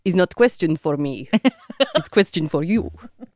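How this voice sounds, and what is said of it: Put-on Ukrainian accent. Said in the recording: “Great accent.”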